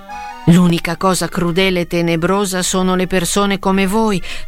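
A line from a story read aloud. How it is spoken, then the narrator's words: Shouting. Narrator (Italian): stava gridando Quasimodo a Frollo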